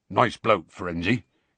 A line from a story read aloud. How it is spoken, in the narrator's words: said gruffly